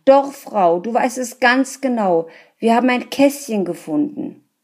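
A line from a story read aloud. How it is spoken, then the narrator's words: Man calling out. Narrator (German): rief der Mann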